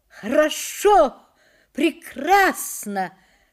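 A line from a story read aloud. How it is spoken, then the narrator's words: Reassuring shout from afar. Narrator (Russian): крикнул он еще за 10 шагов в ответ на тревожные выражения Женина лица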